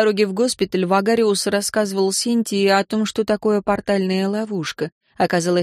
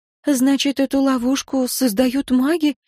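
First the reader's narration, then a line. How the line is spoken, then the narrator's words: Frightened question. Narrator (Russian): спросила женщина испуганно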